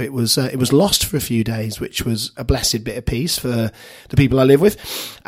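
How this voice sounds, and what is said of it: Husky, hoarse voice. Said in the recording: “as you can hear from my voice. I'm not putting it on. I've not gone all Husky or Sean Dyche... Been a bit poorly the last couple of days”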